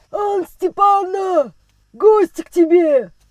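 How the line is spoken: Rough, coarse shout. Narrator (Russian): Грубым голосом крикнул хозяин квартиры

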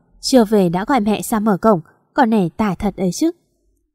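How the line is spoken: Muttering. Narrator (Vietnamese): Bác lẩm bẩm

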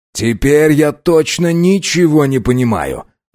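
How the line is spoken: Loud. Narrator (Russian): громко сказал Линкольн

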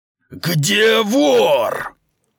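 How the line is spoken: Roaring male voice. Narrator (Russian): проревел он

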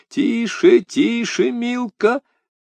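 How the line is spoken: Tender cooing. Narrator (Russian): проворковал нежно

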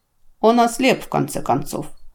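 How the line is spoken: Indifferent, through teeth. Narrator (Russian): равнодушно процедила Андоль

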